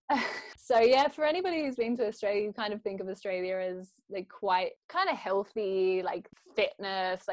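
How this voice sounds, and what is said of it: Australian accent. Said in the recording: “I grew up in Australia ... I try and tone it down a little bit. ... I love an Aussie accent.”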